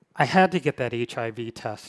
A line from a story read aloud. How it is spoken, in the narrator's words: she said